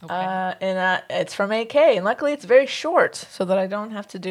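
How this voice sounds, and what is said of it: Usual voice. Nothing is said of it.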